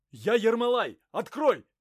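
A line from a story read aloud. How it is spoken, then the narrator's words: Shouting. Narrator (Russian): закричал прибежавший Ерема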